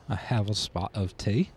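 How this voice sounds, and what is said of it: Bad put-on British accent. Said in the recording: “they love speaking in a British accent ... Absolutely horrible”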